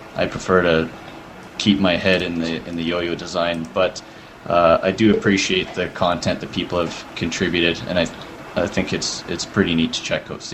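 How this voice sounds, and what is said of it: Canadian accent. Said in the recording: “I'm detecting an accent in your voice ... I'm from Calgary, Alberta, Canada”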